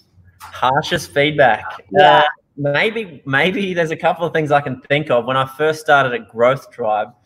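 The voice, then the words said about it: Strong Australian accent. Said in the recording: “I have a pretty bad accent. So I'm from Australia originally. ... I sound a little bit like Steve Irwin, or a lot like Steve Irwin”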